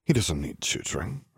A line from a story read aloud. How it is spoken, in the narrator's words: Arcturus muttered